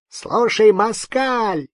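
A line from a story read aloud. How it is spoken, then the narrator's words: Shrieking. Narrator (Russian): завизжал Капучинский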